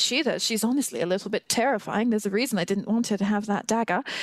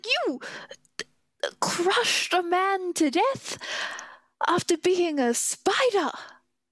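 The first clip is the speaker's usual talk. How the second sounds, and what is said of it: Wavering put-on accent. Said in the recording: “the accent is wavering”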